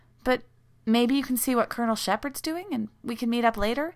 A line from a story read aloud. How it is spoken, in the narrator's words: Rodney blurting it out